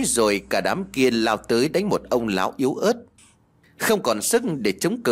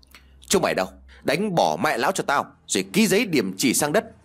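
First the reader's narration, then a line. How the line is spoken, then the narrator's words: Loud shout. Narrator (Vietnamese): tên kia lại quát lớn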